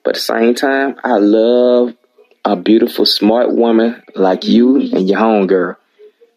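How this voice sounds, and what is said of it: Noticeable regional American accent. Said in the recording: “Let my accent. I hope that you know, it rub off on you New Yorkers”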